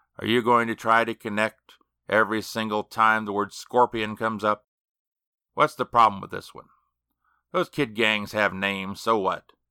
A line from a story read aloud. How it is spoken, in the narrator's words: he said wearily